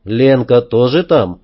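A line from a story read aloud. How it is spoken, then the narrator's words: Calm. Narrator (Russian): спокойно спросил я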